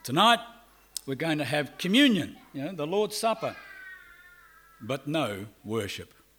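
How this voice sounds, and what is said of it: Australian accent. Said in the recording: “I'm from Australia." You can probably guess because of my accent.”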